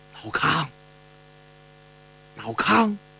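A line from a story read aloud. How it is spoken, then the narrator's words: Soft, barely contained excitement. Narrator (Chinese): 陈友谅难掩激动的心情啊，在夜色中轻声叫出了联络的暗号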